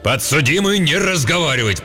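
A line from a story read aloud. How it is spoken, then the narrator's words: Judge's roar. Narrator (Russian): проревел судья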